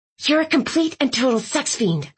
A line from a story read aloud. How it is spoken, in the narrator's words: I hissed, my temper flaring